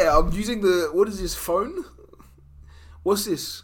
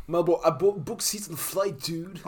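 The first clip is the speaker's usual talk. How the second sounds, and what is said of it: Put-on accent. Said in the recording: “he's doing the accent again.”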